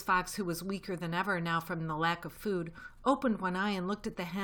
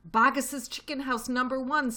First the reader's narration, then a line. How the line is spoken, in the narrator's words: spluttered the small fox